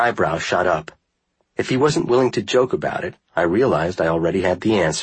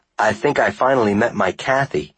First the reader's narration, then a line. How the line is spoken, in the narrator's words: he said